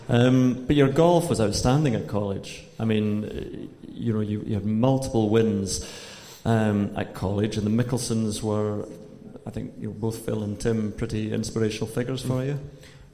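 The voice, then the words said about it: Scottish accent. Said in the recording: “As someone with a Scottish accent”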